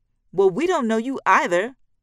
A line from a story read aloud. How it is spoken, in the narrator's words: Reebok shouts, his eyes filling with tears